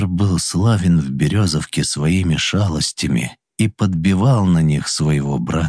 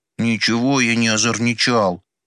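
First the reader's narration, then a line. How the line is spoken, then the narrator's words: Offended sniffle. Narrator (Russian): обиженно шмыгнул покрасневшим на морозе носом Федор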